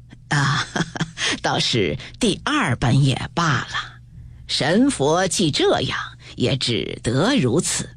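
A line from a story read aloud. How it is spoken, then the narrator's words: Laughing, resigned. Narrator (Chinese): 贾母 笑道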